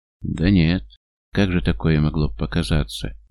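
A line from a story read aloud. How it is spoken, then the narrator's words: Hesitant drawl. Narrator (Russian): неуверенно тянет он, как бы стараясь договориться с самим собой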